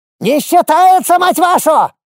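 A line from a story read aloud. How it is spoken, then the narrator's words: Yelling goblin. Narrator (Russian): заорал гоблин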